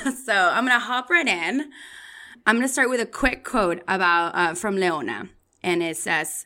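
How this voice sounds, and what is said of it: Usual voice. Nothing is said of it.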